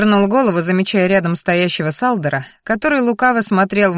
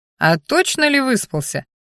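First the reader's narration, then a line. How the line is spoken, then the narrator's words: Chuckling. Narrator (Russian): хохотнул Сал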